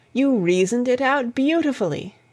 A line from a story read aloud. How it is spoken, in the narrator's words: I exclaimed, in unfeigned admiration